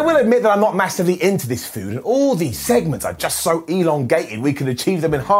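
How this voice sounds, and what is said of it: Usual voice. Nothing is said of it.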